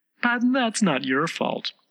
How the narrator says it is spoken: the rose added kindly

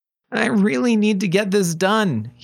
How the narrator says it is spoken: he pleaded

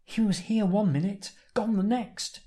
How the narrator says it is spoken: she exclaims

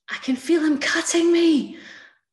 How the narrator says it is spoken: I screamed

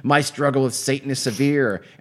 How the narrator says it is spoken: she yelled

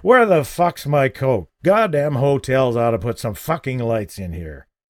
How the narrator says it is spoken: bellowed thickly

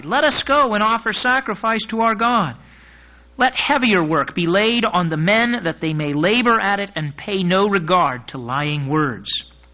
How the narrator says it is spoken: they cried

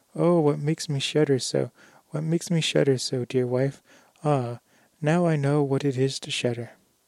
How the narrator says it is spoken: he woke up and cried

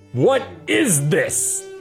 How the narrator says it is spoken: Clint bellowed into the face of his doppelganger

